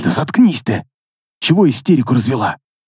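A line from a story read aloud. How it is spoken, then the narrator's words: Hissed. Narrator (Russian): Прошипел я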